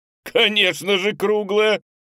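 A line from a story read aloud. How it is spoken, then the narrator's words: Laughing. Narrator (Russian): Теперь и пеликан рассмеялся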